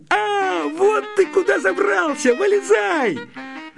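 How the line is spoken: Shout. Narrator (Russian): закричал

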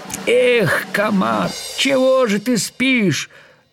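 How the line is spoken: Annoyed shout. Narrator (Russian): с досадой закричала божья коровка

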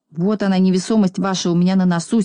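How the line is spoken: Angry. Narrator (Russian): сердито ответил Пончик

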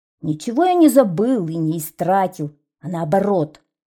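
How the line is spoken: Angry. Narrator (Russian): сердито сказал ветеринар

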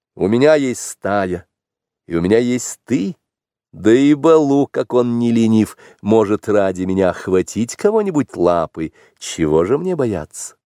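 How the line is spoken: Laughing reply. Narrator (Russian): Но Маугли только смеялся и отвечал

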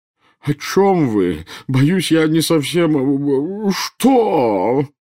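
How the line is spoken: Howling. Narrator (Russian): взвыл премьер-министр

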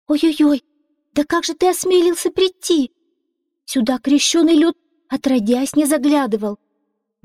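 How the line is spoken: Princess exclaiming. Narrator (Russian): воскликнула принцесса

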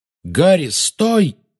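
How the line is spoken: Exclamation. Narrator (Russian): воскликнул Люпин

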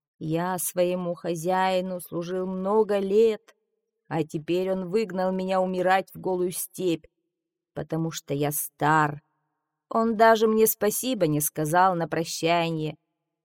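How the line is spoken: Moaned. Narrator (Russian): Он простонал

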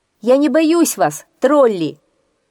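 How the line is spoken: Bold shout. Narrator (Russian): крикнул он смело

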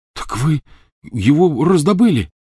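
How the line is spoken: Exclamation. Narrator (Russian): воскликнул Рон

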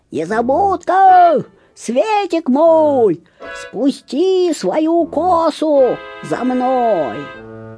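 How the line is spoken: Witch's shout. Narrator (Russian): колдунья и крикнула

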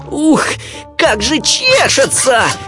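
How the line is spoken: Shouting. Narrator (Russian): кричал

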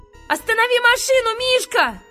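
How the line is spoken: Shouting. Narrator (Russian): закричал

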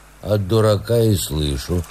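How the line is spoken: Calm curt old man. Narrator (Russian): спокойно отрезал дедушка

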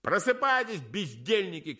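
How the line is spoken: Shouting. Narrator (Russian): кричали они

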